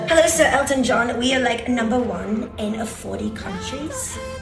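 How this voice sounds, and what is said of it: Mock British accent. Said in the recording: “mock British accent”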